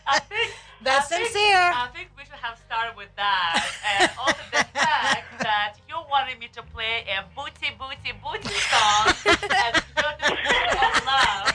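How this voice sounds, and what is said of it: Eastern European accent. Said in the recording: “my Eastern European accent.”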